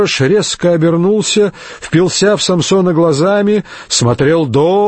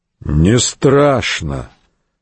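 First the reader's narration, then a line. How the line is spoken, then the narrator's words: Sudden muffled voice. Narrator (Russian): вдруг глухо проговорил Самсон Медок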